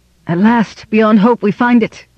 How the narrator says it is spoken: cried Varanwë

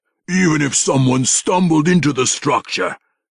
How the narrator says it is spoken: he growled, impatient with the relentless stream of impossible suppositions

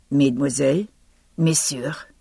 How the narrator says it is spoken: he said, croaking

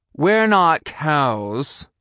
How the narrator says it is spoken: I growled at him

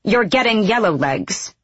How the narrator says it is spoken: Manon snapped

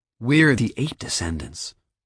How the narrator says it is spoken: Josh said, his voice unconsciously dropping to little more than a whisper

